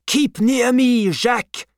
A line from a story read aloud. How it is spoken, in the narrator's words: cried